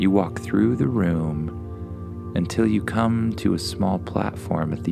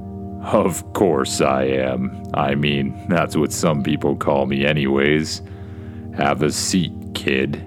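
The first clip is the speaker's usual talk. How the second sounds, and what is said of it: Deep voice. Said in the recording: “says a deep voice.”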